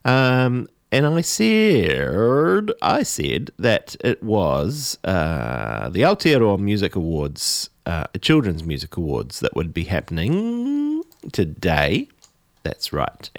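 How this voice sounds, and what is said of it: Croaky, hoarse throat. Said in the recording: “I've got a frog in my throat.”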